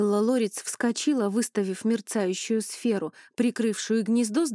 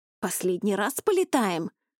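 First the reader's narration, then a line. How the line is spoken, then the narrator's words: Indignant outburst. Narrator (Russian): возмущенно выпалил Ронни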